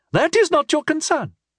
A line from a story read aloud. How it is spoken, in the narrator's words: Mecrethiel said hotly